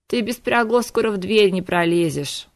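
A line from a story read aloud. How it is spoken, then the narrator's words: Grumbling. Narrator (Russian): проворчал он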